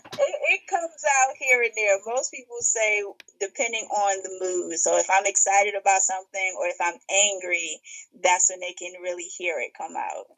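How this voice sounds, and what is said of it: Brooklyn New York accent. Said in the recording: “once you said you're from Brooklyn, that I can hear your accent”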